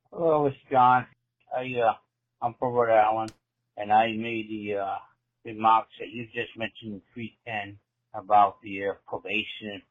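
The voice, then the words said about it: Thick Rhode Island accent. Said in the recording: “he's from Rhode Island ... has a very thick accent. This guy has a thick accent.”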